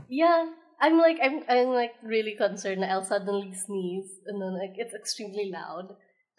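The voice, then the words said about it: Sniffly, congested sick voice. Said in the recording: “I'm a little sick, so sorry for weird voice ... you do sound sniffly”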